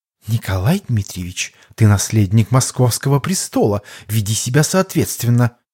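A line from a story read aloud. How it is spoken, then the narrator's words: Quiet but clear. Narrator (Russian): тихо, но внятно произнесла Ирина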